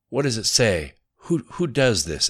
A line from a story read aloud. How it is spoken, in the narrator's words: asked Riker